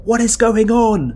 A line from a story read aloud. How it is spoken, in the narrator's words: you yell to Ichitaka over the whistling wind